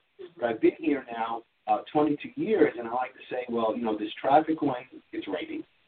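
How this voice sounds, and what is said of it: New York accent. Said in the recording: “my accent may give it away, I'm not originally from Baltimore. I'm originally from New York.”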